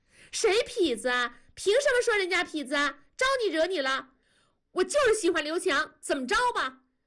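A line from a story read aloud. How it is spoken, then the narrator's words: Sudden agitated shout. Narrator (Chinese): 燕妮突然跳了脚喊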